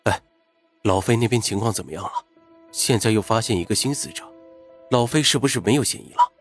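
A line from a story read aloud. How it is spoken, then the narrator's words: Low question. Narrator (Chinese): 云峰低声问安然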